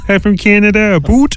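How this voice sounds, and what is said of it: Mock Canadian accent. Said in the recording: “that distinctive accent, slightly different from the US”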